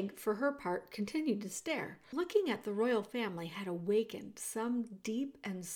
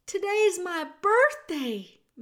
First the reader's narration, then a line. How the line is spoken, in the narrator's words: Meg called out